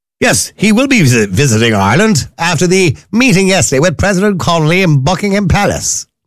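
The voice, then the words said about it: Put-on English accent. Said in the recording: “Do you like my nice English accent?”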